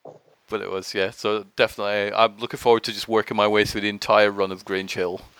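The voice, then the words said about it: Mixed Scottish and English accent. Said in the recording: “I'm from Scotland originally. That's why my accent is a bit weird. So it's like a mixture of Scottish and English”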